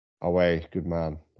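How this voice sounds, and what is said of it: Poor put-on Geordie accent. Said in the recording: “my tune accent leaves a lot to be desired. I need to work on it a little bit more.”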